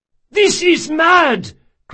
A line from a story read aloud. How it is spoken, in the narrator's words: cried Caldris